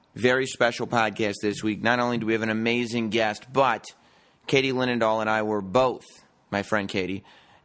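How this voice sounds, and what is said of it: Slightly hoarse, strained voice. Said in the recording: “My voice is still a little shot, I think, from WrestleMania.”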